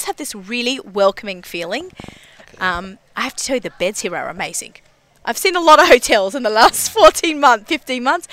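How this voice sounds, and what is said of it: Australian accent. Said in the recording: “I have an accent ... my Australian accent”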